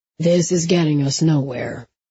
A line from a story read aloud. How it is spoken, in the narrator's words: he said in his calm voice